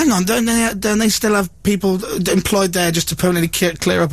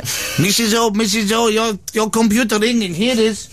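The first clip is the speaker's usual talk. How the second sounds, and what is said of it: Put-on accent. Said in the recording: “Why do you have to give him an accent?”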